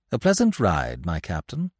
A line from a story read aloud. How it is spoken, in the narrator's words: answered André Louis